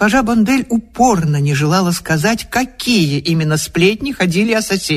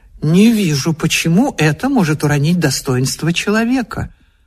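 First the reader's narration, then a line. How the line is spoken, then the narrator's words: Calm objection. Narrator (Russian): Муж спокойно возразил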